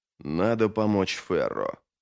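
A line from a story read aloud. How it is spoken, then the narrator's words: Muttered to himself. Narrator (Russian): пробормотал он скорее самому себе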